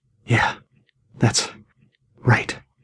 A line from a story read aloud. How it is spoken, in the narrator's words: hissed, punctuating each word